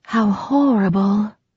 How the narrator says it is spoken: breathed

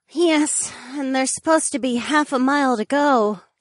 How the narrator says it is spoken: the mermaid sighed

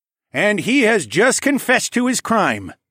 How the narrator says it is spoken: Tecumseh said in a booming voice

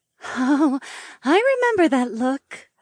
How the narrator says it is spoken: Ravi giggled

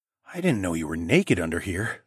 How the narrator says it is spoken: I hissed

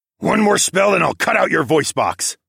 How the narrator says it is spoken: I snarled

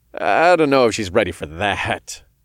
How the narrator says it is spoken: said with a chuckle

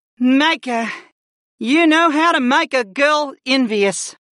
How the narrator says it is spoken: Layla breathed

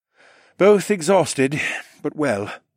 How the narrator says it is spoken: assured

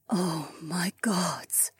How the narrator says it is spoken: Jessamine whispered

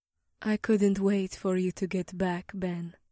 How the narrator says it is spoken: whispered in her angelic voice

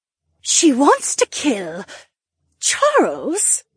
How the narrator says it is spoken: the Duchess gasped

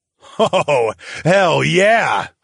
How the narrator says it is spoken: I laughed

